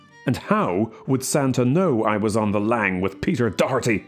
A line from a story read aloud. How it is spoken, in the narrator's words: I growled, losing patience with the little prig